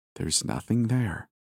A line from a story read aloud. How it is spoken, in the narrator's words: I said softly